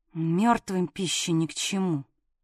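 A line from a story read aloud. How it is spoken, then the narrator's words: Angry hiss. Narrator (Russian): зло прошипела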